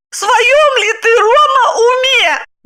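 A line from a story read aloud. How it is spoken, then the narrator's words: Shout. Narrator (Russian): закричала она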